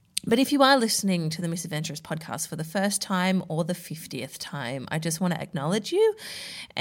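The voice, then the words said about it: Slightly husky, unwell-sounding voice. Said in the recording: “a little bit husky, sounding a little bit like I am unwell ... it might only be a slight thing ... sexy voice”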